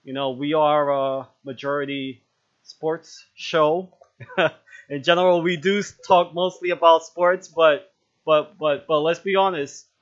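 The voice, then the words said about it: Brooklyn New York accent. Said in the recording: “Brooklyn accent”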